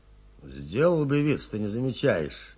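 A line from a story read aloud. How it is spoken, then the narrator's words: Grumbling while walking. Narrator (Russian): на ходу буркнул Нестеренко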